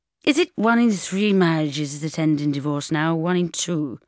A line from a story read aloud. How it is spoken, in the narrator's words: I slurred with a pointless attempt at sarcasm